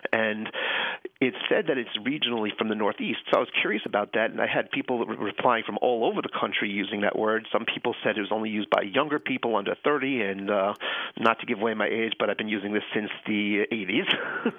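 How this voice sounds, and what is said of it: Slight Long Island New York accent. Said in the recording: “I grew up in Long Island, New York... you can hear the accent... A little bit, yeah.”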